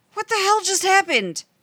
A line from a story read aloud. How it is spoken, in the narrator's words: Rodney yelled